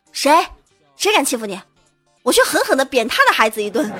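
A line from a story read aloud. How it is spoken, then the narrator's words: Mother, very angry. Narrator (Chinese): 他妈妈非常愤怒的说到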